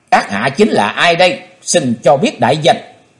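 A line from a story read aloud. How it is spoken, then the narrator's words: Disappointed, stern question. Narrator (Vietnamese): Chí Tôn thất vọng nghiêm nghị hỏi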